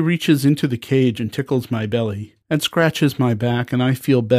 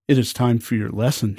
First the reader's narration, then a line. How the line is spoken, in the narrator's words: she says